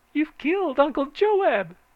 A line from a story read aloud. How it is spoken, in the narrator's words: she shrieked